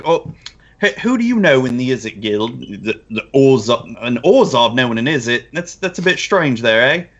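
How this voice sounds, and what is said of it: Put-on British accent drifting. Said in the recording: “now my British accent turned to something a little bit different.”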